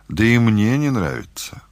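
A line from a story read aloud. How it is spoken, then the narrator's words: Sighing. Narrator (Russian): вздохнул Сережа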